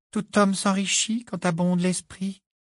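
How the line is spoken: Sing-song voice. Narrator (French): dit Luna d'une voix chantante

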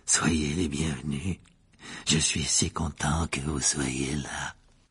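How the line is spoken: Gloomy ghostly tone. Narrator (French): dit le fantôme d'un ton lugubre

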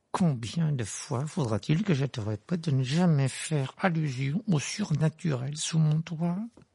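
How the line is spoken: Hissing voice. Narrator (French): dit-il d'une voix sifflante

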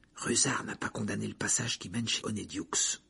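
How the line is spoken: Whispered. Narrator (French): chuchota Harry

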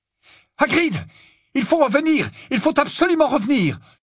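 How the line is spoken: Yelling over roaring engine. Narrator (French): hurla-t-il, essayant de couvrir le vrombissement du moteur qui résonnait comme un tonnerre

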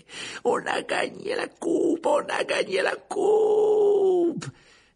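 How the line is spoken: Screaming breathlessly in triumph. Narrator (French): les joueurs de Gryffondor en hurlant à perdre haleine

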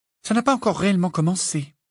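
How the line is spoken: Gloomy sigh. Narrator (French): soupira Hermione d'un air sombre

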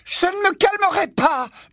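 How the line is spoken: Scream. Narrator (French): hurla-t-elle

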